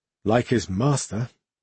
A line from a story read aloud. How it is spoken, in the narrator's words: Derena muttered